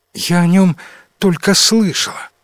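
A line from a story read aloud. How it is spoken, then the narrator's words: Princess's sigh. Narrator (Russian): вздохнула принцесса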